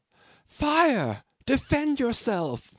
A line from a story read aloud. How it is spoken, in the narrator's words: the girl outside cried in an agonizing voice